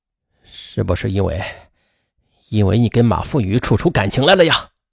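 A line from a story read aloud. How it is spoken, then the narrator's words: Angry, demanding. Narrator (Chinese): 沈振华很愤怒，他质问苏丽梅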